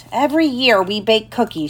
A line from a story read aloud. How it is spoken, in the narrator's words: she said